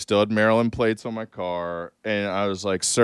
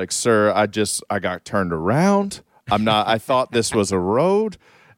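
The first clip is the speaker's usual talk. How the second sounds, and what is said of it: Put-on Southern accent. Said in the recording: “I'm going to pretend to have a Southern accent.”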